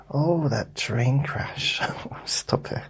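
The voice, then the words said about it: Shifting put-on accent. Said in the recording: “You notice how my accent's going, oh, that train crash. He didn't talk like that.”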